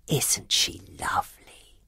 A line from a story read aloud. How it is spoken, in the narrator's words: whispered Mrs